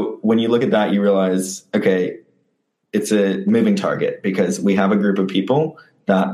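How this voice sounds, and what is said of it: Usual voice. Nothing is said of it.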